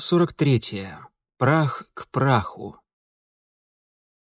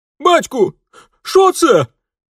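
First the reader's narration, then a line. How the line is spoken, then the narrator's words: Terrified wail. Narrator (Russian): в ужасе взвыл его старший сын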